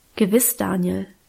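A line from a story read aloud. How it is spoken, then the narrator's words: Plain. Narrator (German): sagte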